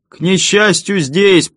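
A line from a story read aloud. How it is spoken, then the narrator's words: Shouted reply. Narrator (Russian): прокричал я в ответ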